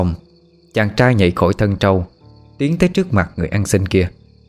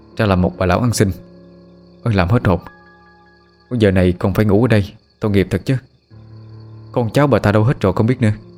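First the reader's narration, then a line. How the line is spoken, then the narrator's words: Exhaling, muttering. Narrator (Vietnamese): Người thanh niên thở hắt ra một hơi, miệng lẩm bẩm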